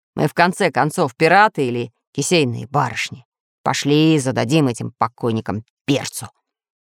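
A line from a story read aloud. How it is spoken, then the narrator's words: Menacing declaration, pirate. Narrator (Russian): грозно заявил рыжевородый пират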